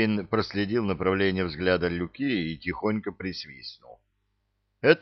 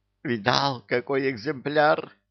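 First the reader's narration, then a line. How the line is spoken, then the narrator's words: Joyful exclamation. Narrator (Russian): радостно воскликнул Люка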